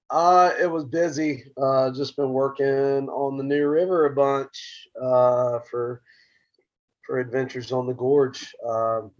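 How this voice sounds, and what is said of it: Hoarse voice. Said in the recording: “I'm pretty hoarse.”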